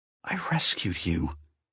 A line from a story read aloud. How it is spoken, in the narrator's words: whispered